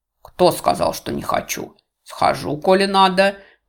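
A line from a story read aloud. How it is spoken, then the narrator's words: Gloomy young man's reply. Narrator (Russian): мрачно отозвался молодой человек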